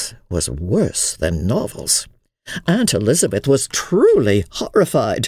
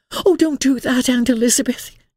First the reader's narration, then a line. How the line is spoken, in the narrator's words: exclaimed Emily